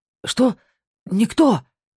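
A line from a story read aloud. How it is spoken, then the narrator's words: Desperate breathless gasp. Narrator (Russian): выдохнул Бьорн в отчаянии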